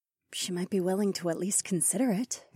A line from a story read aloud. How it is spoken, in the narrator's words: Nokomis murmured